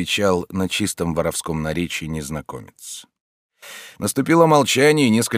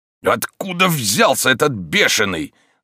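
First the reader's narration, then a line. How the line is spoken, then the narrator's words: Strained shout while struggling. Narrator (Russian): закричал живодер, напрасно стараясь отбиться от своего противника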